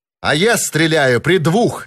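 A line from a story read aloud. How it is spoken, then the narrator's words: Shouting. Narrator (Russian): закричал Нат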